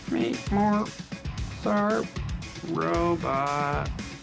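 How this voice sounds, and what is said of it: Bad robot voice. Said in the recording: “do the robot voice ... That's a terrible robot voice.”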